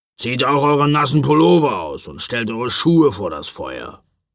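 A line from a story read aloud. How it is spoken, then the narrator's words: Grumbled. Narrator (German): brummte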